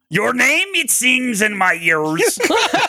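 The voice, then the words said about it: Imitates another person's voice. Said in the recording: “the Rourke impersonation”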